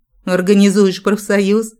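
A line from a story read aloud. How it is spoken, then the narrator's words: Snorting smirk. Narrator (Russian): хмыкнул Джек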